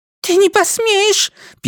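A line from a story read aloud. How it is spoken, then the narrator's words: Squeak. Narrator (Russian): пискнула Микела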